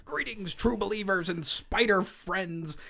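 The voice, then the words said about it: Imitates another person's voice. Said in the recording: “I have a really good Stan impression.”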